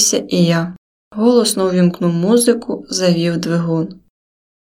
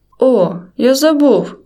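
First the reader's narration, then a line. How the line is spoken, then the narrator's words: Exclaiming. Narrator (Ukrainian): вигукнув Каша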